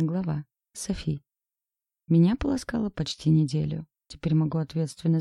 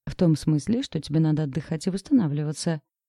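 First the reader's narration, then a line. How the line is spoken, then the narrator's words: Rapid chatter. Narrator (Russian): затараторил Макс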